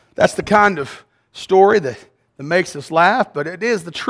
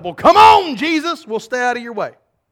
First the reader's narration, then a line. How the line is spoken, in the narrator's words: the little girl closest to the aisle shouted